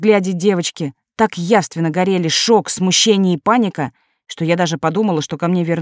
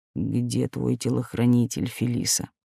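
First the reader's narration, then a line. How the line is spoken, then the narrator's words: Cold inquiry. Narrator (Russian): холодно поинтересовался Берговец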